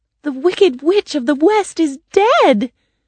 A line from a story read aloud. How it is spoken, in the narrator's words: Dorothy cried